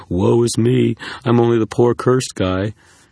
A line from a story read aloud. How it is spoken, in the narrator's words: you moan and say